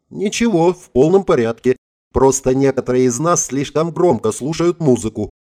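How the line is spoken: Snide reply. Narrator (Russian): ехидно ответила Мэри

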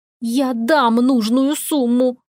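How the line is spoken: Through clenched teeth. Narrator (Russian): процедила Розет

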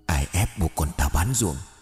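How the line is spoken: Trembling woman's voice. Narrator (Vietnamese): Giọng của người đàn bà run rẩy

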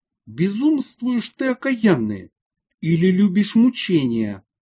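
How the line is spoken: Furious exclamation. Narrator (Russian): отец Юлиании вне себя от гнева воскликнул

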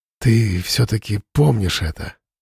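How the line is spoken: Sighing. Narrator (Russian): вздохнул он

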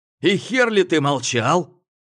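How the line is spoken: Barked. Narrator (Russian): рявкнул Гоша

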